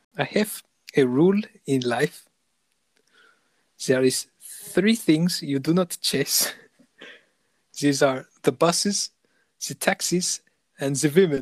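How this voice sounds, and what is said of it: Put-on German accent. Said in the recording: “German accent.”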